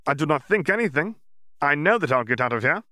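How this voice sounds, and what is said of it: Slight Scandinavian-Russian accent. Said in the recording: “He still sounded a bit like Yaxley, but there was something of another accent in his voice as well, a little Scandinavian, a little Russian.”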